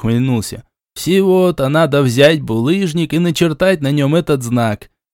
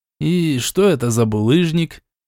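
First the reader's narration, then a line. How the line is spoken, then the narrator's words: Displeased grumble. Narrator (Russian): Недовольно буркнул Шичерун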